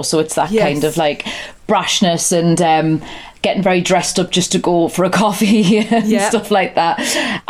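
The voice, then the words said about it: Geordie accent. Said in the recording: “that's very stereotypical Geordie ... Known for being quite friendly as a people, Geordies. That's why my accent's quite peculiar.”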